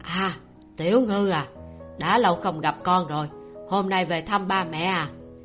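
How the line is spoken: Loud, middle-aged woman asking. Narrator (Vietnamese): Một dì tuổi trung niên lớn tiếng hỏi

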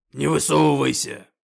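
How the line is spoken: Growling orc. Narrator (Russian): рыкнул орк-защитник

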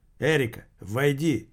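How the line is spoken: Shouting. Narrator (Russian): крикнул Грек

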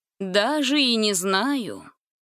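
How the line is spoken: Mocking drawl. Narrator (Russian): насмешливо протянул Рагнар

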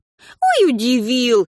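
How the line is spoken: Sarcastic smirk. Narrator (Russian): ехидно кривится Танька

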